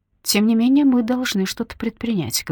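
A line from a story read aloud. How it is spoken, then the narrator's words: Plain. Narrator (Russian): говорит он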